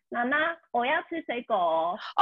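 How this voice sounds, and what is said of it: Imitated Taiwanese-accented Mandarin. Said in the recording (Chinese): “我妈妈的中文是台湾国语 ... 所以他会学阿嬷的声音啦”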